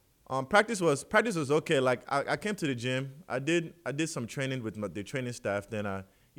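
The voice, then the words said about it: Speaks with a forced home accent. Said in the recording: “it's just like an accent... my accent will come out. Let me see if I can try to force it out... That's like me trying to force it... it's really thicker when I'm like talking to like my mom”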